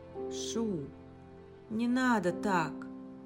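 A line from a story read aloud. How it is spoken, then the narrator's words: Sighing. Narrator (Russian): Вздохнул Инг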